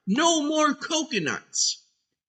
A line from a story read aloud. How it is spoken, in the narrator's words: when Daffy is excited, he yells out